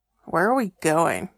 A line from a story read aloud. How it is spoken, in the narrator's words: He grunted